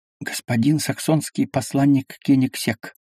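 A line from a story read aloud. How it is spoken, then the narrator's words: Butler's whispered announcement. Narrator (Russian): Мажордом, встретя Анну Ивановну на черном крыльце, доложил шепотом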